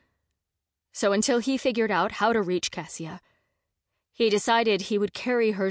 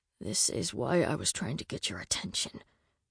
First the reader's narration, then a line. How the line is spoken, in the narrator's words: quietly said